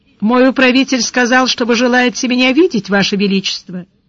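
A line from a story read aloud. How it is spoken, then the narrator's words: Indifferent formal tone. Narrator (Russian): С порога сказал безразличным светским тоном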